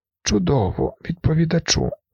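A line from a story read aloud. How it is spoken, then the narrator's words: High weak voice. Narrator (Ukrainian): звернувся Лінгман високим слабким голосом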